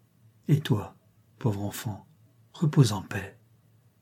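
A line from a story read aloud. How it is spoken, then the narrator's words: Trembling voice. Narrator (French): Puis elle dit d'une voix qui tremble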